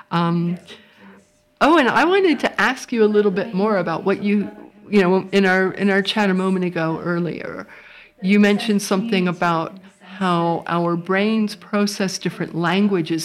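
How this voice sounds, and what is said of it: American accent. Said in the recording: “As you might be able to tell from my voice, I'm not from Aberystwyth. I came here from California”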